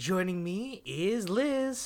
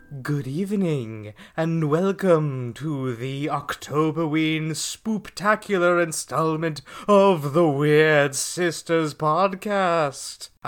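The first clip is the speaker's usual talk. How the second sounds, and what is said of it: Spooky ghoulish Halloween host voice. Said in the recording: “I'm your ghoulish host ... I can't keep doing this voice”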